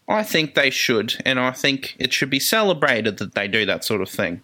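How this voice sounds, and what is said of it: Charming foreign accent. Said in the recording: “I love your accents, guys. They're so charming.”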